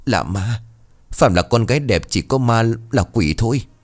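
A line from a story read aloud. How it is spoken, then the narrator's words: Trembling stammer. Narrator (Vietnamese): Thằng Tài giọng run rẩy lắp bắp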